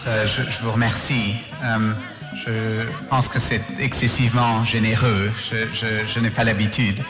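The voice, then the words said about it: Slight British accent in French. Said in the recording (French): “Son petit accent british fait tout son charme.”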